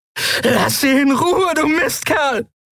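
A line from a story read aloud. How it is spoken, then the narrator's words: Screaming with powerful voice. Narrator (German): schrie sie mit Wunderkehle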